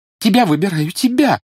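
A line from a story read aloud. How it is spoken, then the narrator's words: Sobbing immediate answer. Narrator (Russian): сразу ответила Жюли и, всхлипывая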